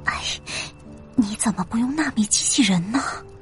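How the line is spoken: Tender, worried whisper. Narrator (Chinese): 小玉姐心疼的小声说道

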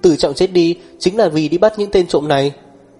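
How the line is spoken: Sudden loud shout. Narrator (Vietnamese): Miều Miều đột nhiên hét lớn một tiếng

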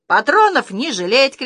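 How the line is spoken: Shout. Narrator (Russian): кричала моя мама

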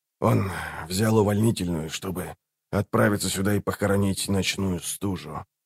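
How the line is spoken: Quiet. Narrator (Russian): тихо добавил он

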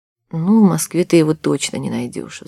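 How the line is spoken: Sigh. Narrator (Russian): вздохнула Надя

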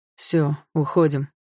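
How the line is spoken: Father's dry voice. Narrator (Russian): сказал отец сухим голосом

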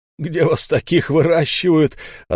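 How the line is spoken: Question after laughing. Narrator (Russian): отсмеявшись, спросил он

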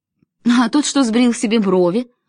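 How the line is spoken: Plain. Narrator (Russian): сказала я

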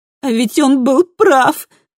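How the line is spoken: Exclaimed, holding back sobs. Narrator (Russian): воскликнула Камилла, стараясь подавить рыдание

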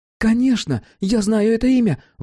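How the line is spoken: Exclaimed. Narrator (Russian): воскликнула Давид

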